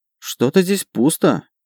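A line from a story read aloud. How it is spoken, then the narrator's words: Muttered. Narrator (Russian): пробормотала Марика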